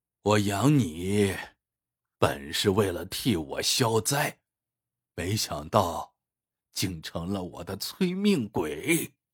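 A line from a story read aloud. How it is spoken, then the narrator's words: Wry, bitter. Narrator (Chinese): 他苦笑说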